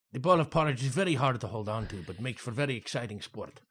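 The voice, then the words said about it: Put-on accent, inconsistent. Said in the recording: “My accent shifts back and forth.”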